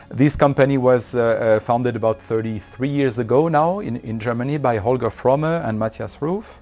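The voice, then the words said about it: French-accented English. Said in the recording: “even if I have a French accent”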